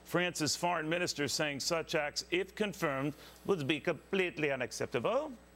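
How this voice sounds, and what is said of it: Put-on French accent. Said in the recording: “That was my French accent.”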